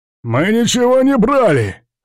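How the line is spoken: Hoarse, defiant rasp. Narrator (Russian): хрипит скованный кандалами несгибаемый техник

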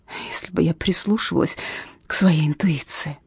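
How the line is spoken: Sobbing. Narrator (Russian): всхлипывает она

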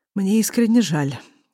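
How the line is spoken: Tired reply. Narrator (Russian): устало отзывается Азамат

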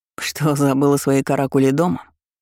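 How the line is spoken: Snorting. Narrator (Russian): Хмыкнув, он

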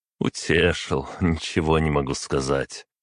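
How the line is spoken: Short rueful laugh. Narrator (Russian): хохотнул я, чувствуя всем существом, что он прав

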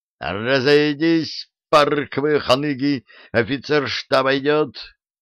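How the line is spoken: Yelling. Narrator (Russian): завопил Вова

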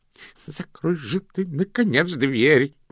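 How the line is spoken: Groaning. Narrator (Russian): простонал Слыпень

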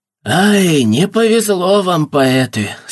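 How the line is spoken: Rough, blunt speech. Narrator (Russian): сказали они, грубо, как булыжники, бросая слова

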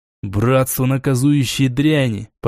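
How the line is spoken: Hissed. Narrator (Russian): прошипел я

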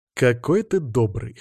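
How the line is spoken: Snorting reply. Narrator (Russian): хмыкнул я в ответ

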